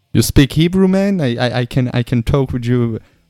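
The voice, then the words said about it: Half Korean, half Texan accent. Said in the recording (Hebrew): “מבטא ... זה היה חצי קוריאני, אחי, חצי טקסס.”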